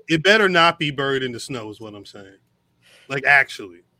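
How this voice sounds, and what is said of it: Stern fatherly dad voice. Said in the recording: “super dad voice”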